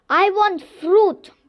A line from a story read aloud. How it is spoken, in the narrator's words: bellowed the Baobab Tree